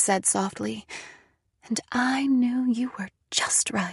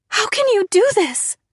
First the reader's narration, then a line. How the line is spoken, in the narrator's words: I cried